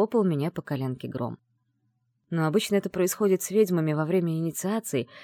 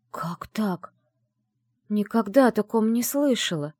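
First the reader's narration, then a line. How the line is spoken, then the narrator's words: Whispered. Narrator (Russian): прошептала я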